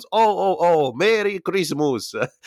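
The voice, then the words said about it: Put-on Italian accent. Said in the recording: “had an Italian accent.”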